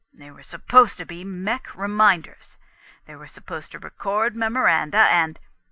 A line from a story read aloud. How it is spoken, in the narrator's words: Gusterson began in a kind of confused horror